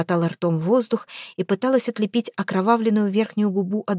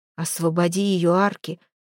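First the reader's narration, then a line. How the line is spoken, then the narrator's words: Strained, terrified. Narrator (Russian): Выдавил не отошедший от ужаса Кокрин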